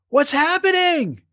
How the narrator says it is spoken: cried Abigail

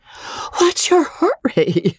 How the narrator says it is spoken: wheezed that lady, puffing

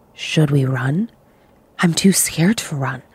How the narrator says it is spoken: We whispered to each other

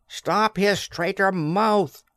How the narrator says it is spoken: cried someone far back

